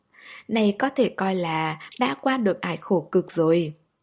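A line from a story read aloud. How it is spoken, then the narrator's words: Elated. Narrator (Vietnamese): La Tiểu Nghĩa hớn hở ra mặt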